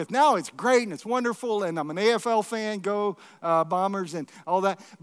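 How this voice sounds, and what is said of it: American accent. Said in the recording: “you can probably tell by the accent, I didn't come from here. I actually came from the U.S.”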